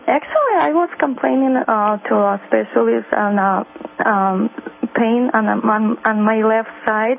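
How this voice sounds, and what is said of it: Non-native English accent. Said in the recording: “I speak with accent, but I try my best ... You can speak with accent on this show”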